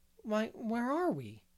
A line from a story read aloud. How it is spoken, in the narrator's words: exclaimed Diana in bewilderment